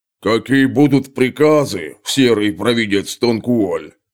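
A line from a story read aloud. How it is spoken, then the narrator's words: Deep bass voice, huge man. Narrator (Russian): пробасил самый здоровенный из них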